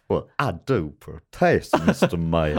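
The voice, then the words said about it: Put-on Southern American accent. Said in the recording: “Sometimes in the South, if there's an accent ... you're just doing an accent.”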